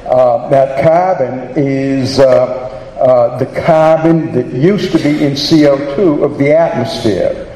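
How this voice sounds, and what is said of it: Boston accent. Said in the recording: “I have a Boston accent, south of Dorchester”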